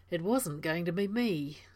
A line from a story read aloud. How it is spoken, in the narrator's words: Daniel said